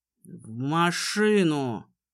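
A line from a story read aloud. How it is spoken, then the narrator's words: Menacing, cutting off. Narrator (Russian): Обрывает ее грозным тоном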